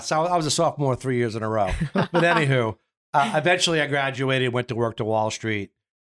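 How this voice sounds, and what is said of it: Strong Long Island New York accent. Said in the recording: “I hear a strong accent. ... you're clearly not from Florida. ... Long Island, New York.”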